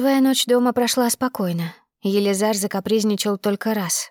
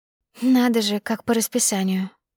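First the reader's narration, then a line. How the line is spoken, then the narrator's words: Sleepy mumble. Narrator (Russian): сонно пробормотала я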